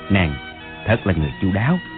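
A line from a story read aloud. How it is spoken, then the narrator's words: Giggling. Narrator (Vietnamese): Bằng Dự cũng cười khúc khích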